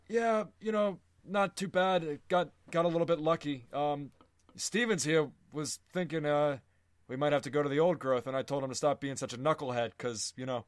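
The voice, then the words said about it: Old man character voice. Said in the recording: “this is my character voice... Sherman is an old man.”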